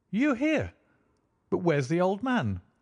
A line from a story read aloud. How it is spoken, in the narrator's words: I exclaimed